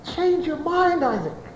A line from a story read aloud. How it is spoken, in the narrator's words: Esau, in all the strength of his flesh, pleading, wailing